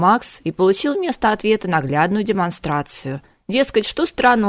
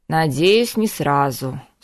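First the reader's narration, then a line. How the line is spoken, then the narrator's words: Sighed. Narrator (Russian): вздохнул Макс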